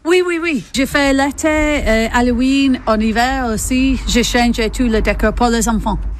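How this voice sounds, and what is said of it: English accent speaking French. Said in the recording (French): “D'où vous vient votre accent? ... Moi, j'ai venu d'Angleterre”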